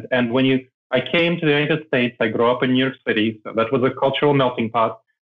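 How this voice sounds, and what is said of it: Non-mainstream American, immigrant accent. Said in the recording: “people still hear I have an accent ... I don't have a mainstream American accent ... I decided to keep my accent.”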